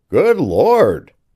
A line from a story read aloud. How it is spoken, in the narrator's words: cried the man